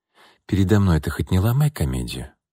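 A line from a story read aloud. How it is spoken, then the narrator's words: Quiet. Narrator (Russian): тихо сказала Анна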